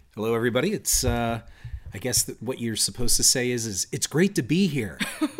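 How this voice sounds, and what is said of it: Low, sultry sexy voice. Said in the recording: “you're using your sexy voice today”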